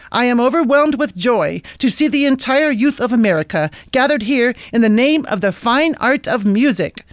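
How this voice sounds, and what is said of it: Badly contrived East Indian accent. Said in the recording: “in a badly contrived East Indian accent”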